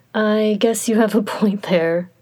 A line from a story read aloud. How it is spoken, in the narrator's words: Shilian said with a laugh